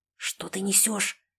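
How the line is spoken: Hushed whisper. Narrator (Russian): прошептала я, стараясь, чтобы кроме него меня никто не слышал

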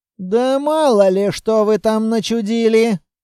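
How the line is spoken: Grumbling. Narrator (Russian): проворчал Квартник

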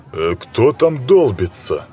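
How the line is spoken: Stern man's question. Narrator (Russian): строго спросил круглолицый, розовощекий мужчина с залысинами

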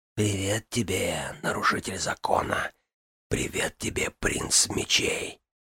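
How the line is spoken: Mocking whisper to self. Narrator (Russian): прошептал он самому себе насмешливые слова Ксалтората

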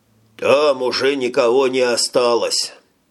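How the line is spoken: Strained, forced out. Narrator (Russian): с усилием выдавил старший из двоих

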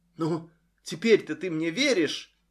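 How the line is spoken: Quiet, daughter. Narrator (Russian): тихо спросила дочь

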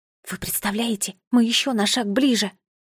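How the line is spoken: Whisper. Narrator (Russian): прошептала фея

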